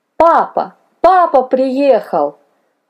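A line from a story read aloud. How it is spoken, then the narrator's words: Joyful shouting small child. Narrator (Russian): радостно закричал малыш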